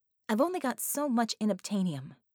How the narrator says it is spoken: she'd said sharply

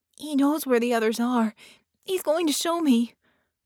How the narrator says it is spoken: the child said urgently

